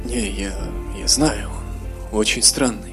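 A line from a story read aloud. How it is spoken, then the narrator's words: Whispered reply. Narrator (Russian): ответил шепотом Эзраэль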